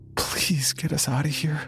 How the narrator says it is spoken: she whimpered

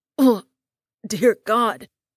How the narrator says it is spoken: sputtered out

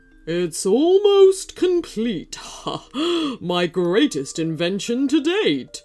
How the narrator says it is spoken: he chuckled

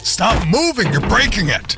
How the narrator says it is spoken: Teddy yelled

